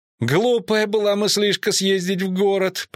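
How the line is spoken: Groaning. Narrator (Russian): простонал Трубадур

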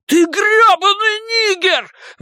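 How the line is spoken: Shrill shriek. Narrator (Russian): взвизгнул Генри

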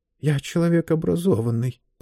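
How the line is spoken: Mutter. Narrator (Russian): пробормотал он

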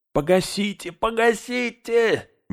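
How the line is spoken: Wailing in strange voice. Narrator (Russian): не своим голосом завопил Мэри

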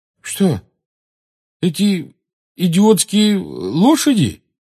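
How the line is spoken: Uncertain question. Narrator (Russian): неуверенно спросил Рон

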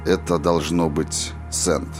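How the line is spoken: Quiet speech. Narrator (Russian): негромко проговорил он

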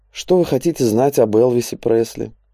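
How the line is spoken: Weary. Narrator (Russian): устало произнес он

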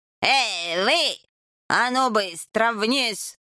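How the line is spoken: Menacing demand. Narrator (Russian): грозно потребовал

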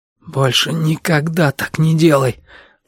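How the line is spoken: Hoarse. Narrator (Russian): прохрипел Арсен

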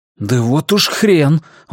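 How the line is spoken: Exclaiming. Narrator (Russian): воскликнул я

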